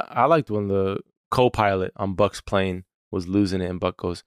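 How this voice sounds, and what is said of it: Usual voice. Nothing is said of it.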